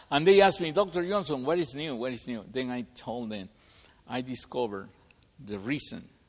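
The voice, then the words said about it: Speaks with a noticeable accent. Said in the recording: “they love my accent”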